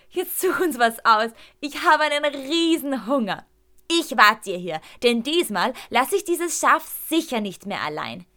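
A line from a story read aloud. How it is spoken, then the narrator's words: Spoken through a giggle. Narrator (German): bringe ich unter einem letzten Kichern hervor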